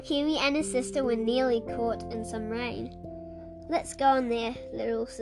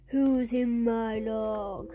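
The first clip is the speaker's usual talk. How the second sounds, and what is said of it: Deep growling character voice. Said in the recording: “a deep voice growled ... rumbled the deep voice”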